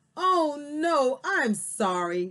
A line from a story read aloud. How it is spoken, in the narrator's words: Daisy exclaimed